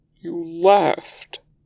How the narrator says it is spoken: Lan Zhan says, his voice cracking

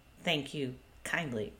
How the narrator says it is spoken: he muttered to Ray

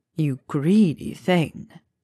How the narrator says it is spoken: purred

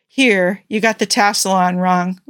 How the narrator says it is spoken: said with a sigh

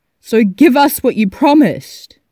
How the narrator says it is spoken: Phil shouted

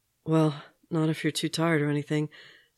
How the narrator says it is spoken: Steve said, breathlessly

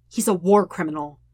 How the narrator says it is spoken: Sokka says harshly

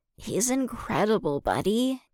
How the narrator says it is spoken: Anakin sighed wistfully

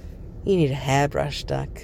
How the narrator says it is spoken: murmurs

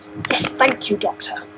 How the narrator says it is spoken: the master hissed back

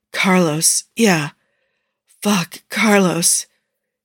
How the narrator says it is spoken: keeps saying it until the only sounds coming out of his mouth are weak, breathy whimpers

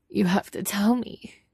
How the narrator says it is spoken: he cries

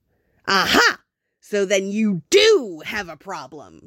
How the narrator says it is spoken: Jack said triumphantly

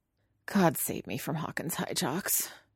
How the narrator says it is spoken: Robin mutters under her breath

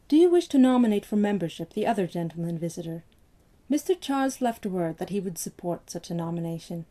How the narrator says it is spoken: Patterson asked in a studiously mild tone

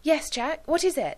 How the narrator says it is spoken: Gwen asked eagerly

